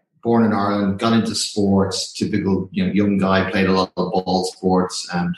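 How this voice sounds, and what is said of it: Light Irish accent. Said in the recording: “obviously I'm Irish and you can tell by the accent I've still got a little bit of it.”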